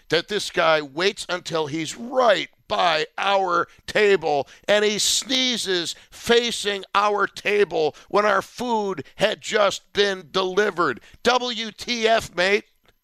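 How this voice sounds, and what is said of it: Aggravated, irritated tone. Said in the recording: “You can hear it in my voice. I'm still aggravated today”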